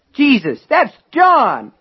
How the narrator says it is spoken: Norris cried

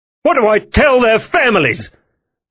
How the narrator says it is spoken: Lockwood snapped

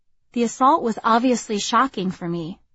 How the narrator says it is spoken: Alicia said

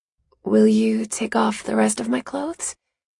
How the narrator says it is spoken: I ask in a nervous voice

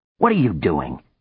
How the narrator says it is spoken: he cried angrily

